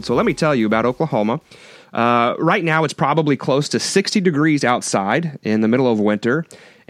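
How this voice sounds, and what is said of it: Voice sounds sick. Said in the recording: “If you can't tell by my voice, I have been fighting off what everybody else is, seems to be fighting off ... if you can put up with my voice”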